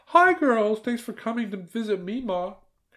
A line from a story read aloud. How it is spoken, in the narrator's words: Hillary's aunt called out from the kitchen